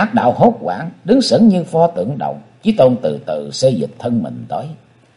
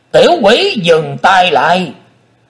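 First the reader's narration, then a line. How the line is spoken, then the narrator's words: Shouted. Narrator (Vietnamese): tiếng quát đó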